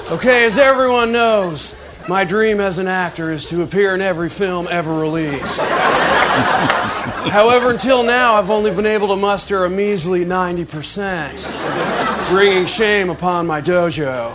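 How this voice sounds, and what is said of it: Good Nicolas Cage impression. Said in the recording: “Andy Samberg doing his Nicolas Cage impersonation. ... And it is good.”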